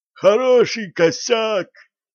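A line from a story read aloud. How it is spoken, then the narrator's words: Hoarse wheeze. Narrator (Russian): просипела Лина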